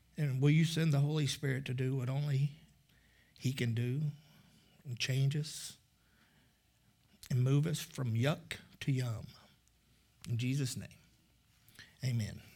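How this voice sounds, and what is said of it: Emotional, choked-up voice. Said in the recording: “I don't know why I'm getting emotional.”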